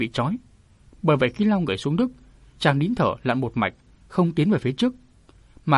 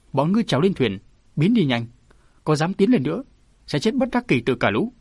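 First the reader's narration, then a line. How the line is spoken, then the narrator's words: Furious shout through teeth. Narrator (Vietnamese): Cô ta hầm hực nghiến răng, cô ta phẫn nộ quát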